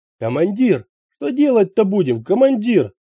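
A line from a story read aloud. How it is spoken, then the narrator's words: Yelled. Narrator (Russian): завопил Мумба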